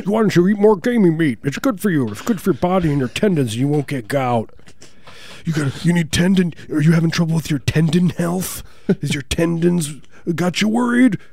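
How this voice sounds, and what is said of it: Wilford Brimley impression. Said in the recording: “It's just a sound alike Wilford Brimley impersonator.”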